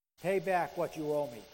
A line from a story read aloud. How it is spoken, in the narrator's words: he said